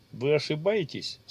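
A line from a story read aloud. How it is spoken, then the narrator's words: Calm. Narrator (Russian): спокойно ответил маг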